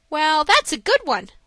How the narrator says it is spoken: laughed Dick

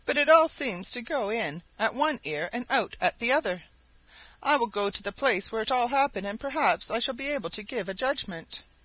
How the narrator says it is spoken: said sadly

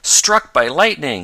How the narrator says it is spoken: yelled Ned

